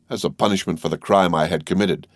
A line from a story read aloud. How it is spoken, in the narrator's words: answered Bertuccio